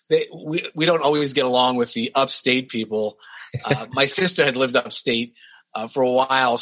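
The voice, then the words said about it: Downstate New York accent. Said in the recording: “especially with my accent ... speaking of accents, how does the New York accent vary”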